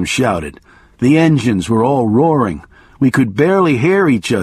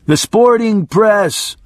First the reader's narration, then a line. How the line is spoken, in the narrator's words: I yelled